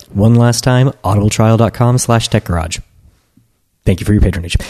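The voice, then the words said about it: Clear, enunciated radio announcer voice. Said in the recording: “we were much more clear that time, like with like enunciation and whatnot. I use my radio voice. ... Not just my normal, everyday talky-talk voice”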